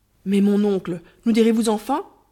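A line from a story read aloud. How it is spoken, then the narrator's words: Exclaiming. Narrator (French): s'écria Ahmet, auquel se joignit la jeune fille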